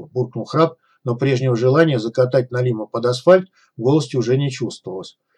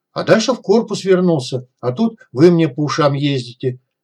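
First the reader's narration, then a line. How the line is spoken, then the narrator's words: Angry. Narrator (Russian): сердито добавил Налим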